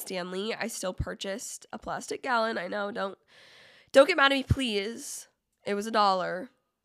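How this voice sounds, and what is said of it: Sick, strained voice. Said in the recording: “my voice has sounded absolutely insane throughout this entire episode, it is because I am ill ... My voice is just annoying.”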